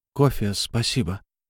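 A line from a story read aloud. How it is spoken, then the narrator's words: Mutter. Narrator (Russian): Я пробормотал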